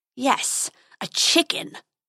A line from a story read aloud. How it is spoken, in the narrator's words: snarled the dragon